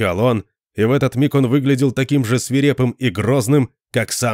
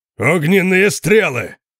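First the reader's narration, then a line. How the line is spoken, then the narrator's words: Thunderous male roar. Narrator (Russian): проревел Конан столь же громко, как сам дракон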